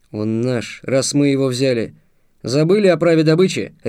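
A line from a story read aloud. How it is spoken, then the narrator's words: Barked. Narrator (Russian): рявкнул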